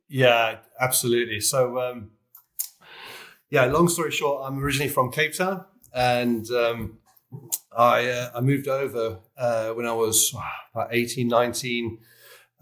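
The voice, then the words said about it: South African accent. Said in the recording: “I immediately picked up on a South African accent.”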